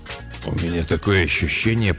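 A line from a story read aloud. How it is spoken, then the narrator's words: Muttered aloud. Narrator (Russian): пробормотал он вслух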